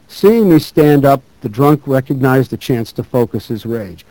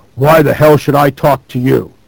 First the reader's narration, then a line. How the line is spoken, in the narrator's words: He planted his feet belligerently in front of the old gentleman and roared